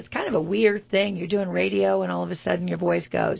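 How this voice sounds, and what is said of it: Hoarse voice recovering from laryngitis. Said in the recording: “Forget the voice. I'm on my sixth day of just getting over laryngitis.”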